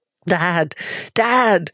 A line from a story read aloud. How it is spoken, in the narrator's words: Jules was screaming